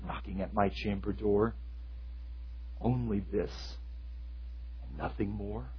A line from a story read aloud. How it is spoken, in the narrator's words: muttered